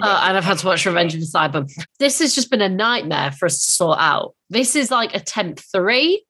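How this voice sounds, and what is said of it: Congested, stuffy-nosed voice with a cold. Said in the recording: “I have a cold again ... I've got a blocked nose. I've got a cough ... I'm tired. I feel rough.”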